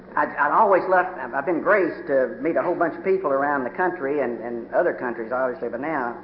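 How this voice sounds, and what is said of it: Kentucky accent. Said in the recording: “if any of y'all come to Kentucky, you'll have the damned accent”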